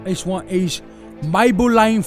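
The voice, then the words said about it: Put-on Cockney accent. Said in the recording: “now I'll be doing it in a Cockney accent ... You're going to have to say that a little bit less British”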